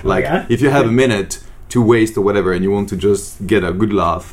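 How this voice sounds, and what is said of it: French accent in English. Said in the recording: “translation of the French accent ... he starts using that French”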